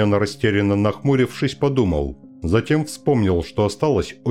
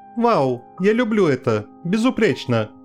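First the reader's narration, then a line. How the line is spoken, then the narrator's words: Laughing. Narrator (Russian): Цзюаньсе, смеясь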